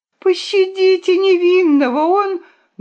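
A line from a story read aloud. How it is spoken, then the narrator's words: Shout. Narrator (Russian): Хитраска закричала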